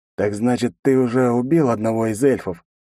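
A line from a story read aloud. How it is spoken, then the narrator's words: Mocking. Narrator (Russian): насмешливо произнес он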